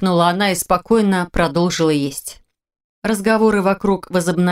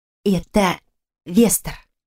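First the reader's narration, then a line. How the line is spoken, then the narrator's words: Whisper. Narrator (Russian): шепнула мне Ирис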